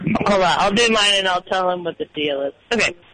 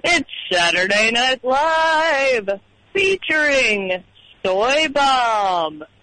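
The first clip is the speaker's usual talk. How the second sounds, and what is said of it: Don Pardo announcer impression. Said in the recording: “So let's hear your Don Pardo now.”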